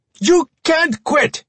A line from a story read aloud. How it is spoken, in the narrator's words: Jung screamed into the phone